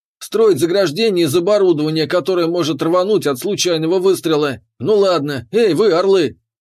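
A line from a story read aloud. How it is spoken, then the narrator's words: Bark. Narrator (Russian): рявкнул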